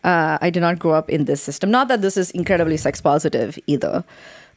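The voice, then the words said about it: Non-American English accent. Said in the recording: “As you can tell from my accent, I'm not from the United States of America.”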